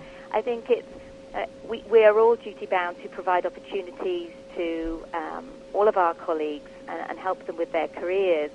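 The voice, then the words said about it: British accent. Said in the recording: “we clearly hear the British accent”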